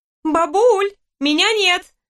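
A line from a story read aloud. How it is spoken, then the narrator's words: Shouted. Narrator (Russian): выкрикнула Лиза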